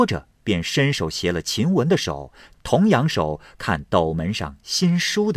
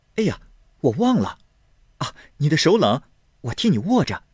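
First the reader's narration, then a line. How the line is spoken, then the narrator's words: Laughing. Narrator (Chinese): 宝玉听了，笑道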